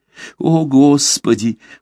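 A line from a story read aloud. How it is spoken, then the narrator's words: Anguished pleading. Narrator (Russian): в томлении духа взмолился он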